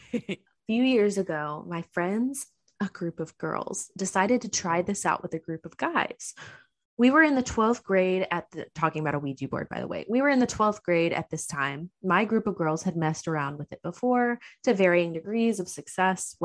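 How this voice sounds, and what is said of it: Dramatic narrator voice. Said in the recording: “I'm gonna read this in my best narrator voice for you.”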